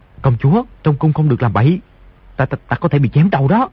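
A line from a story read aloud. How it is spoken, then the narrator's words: Frightened lowered voice. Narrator (Vietnamese): Di Tiểu Bảo hoảng sợ, tim đập thình thịch, hạ giọng nói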